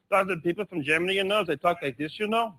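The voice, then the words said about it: Put-on foreign accent. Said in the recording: “He's a walking Berlitz library who can do any accent from any place”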